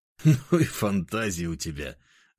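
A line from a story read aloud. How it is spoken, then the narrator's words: Laughing. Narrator (Russian): рассмеялся я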